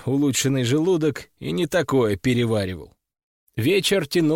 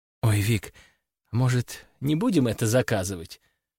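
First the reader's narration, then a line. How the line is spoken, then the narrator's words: Anxious whisper. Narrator (Russian): с тревогой прошептала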